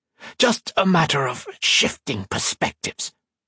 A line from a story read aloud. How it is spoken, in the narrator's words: Gibbons spat out